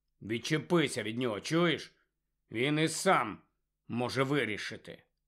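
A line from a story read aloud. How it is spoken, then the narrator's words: Quiet grumble. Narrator (Ukrainian): Рон неголосно буркнув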